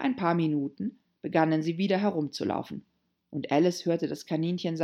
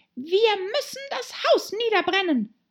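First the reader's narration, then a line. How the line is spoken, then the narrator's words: Rabbit's voice, plain. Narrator (German): sagte die Stimme des Kaninchens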